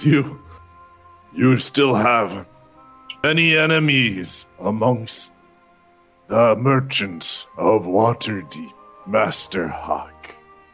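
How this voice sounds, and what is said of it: Deep chesty character voice. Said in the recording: “He just has like this deep voice comes from his chest.”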